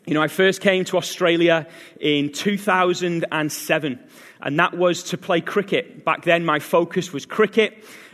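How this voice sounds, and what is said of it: English accent. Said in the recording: “I originally from England ... hear an English accent here today ... there's a few people that can understand me this morning”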